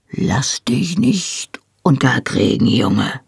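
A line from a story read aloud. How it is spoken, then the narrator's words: Murmuring. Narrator (German): murmelte ich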